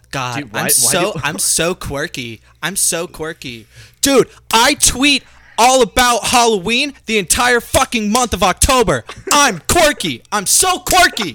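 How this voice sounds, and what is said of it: Mocking stereotyped indie girl voice. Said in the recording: “that indie girl impression, you sounded like almost like Donald Trump”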